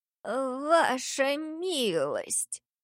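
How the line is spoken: Trembling elderly voice. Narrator (Russian): Дрожащим старческим голосом начал старый дворецкий

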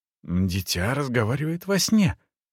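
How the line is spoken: Firm whisper. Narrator (Russian): решительно прошептала она

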